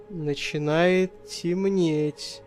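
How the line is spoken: Whisper. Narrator (Russian): прошептал он

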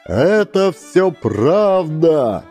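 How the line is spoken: Crowd shouting. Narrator (Russian): закричал народ

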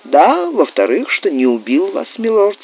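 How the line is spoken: Calm reply. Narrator (Russian): спокойно ответил доктор

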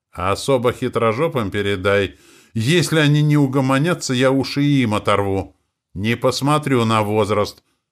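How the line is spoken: Loud shout after someone. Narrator (Russian): громко крикнул Семену вслед, чтобы Матвей Егорович наверняка эти слова услышал

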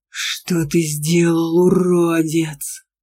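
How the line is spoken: Growled. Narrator (Russian): зарычал Аргар

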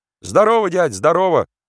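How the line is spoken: Cheerful young Cossack voices, chorus. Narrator (Russian): весело отозвались с разных сторон молодые голоса казаков

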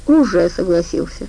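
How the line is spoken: Sighing. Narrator (Russian): вздохнул Димон

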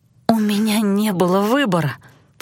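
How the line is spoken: Faltering mumble. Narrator (Russian): пролепетала я

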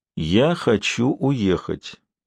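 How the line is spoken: Slow speech. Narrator (Russian): медленно сказал Шерик

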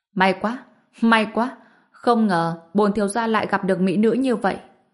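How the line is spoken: Laughing loudly, young man. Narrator (Vietnamese): người thiếu niên cười to nói

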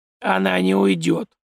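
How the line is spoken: Creaky old man's voice. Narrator (Russian): проскрипел старик

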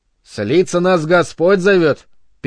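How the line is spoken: Interrupting with snide chuckle. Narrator (Russian): перебил Бернард, хохотнув ехидно

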